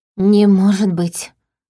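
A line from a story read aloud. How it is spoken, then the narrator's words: Breathless. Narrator (Russian): выдохнула я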